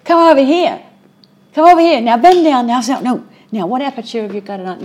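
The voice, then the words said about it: Weak put-on New York accent. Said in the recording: “I'm not doing a very good New York accent.”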